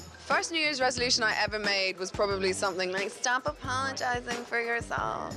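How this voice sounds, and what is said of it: Usual voice. Nothing is said of it.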